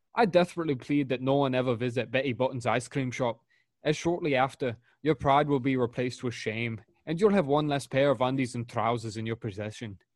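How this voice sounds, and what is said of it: Weak put-on Scottish accent. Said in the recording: “your Scottish accent because I could actually understand every word you said ... they slur everything”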